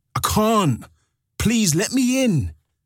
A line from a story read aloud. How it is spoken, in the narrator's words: yelled